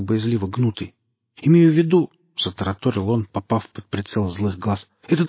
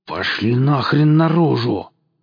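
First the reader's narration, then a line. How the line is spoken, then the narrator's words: Angry hiss. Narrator (Russian): зло зашипел Качака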